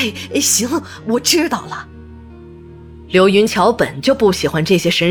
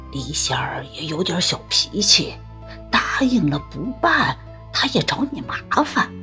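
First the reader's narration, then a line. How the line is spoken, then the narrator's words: Deliberately lowered voice. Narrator (Chinese): 陈婆故意压低声音说道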